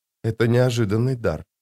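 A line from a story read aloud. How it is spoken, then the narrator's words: Whisper. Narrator (Russian): прошептала она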